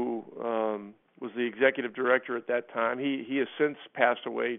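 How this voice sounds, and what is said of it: Usual voice. Nothing is said of it.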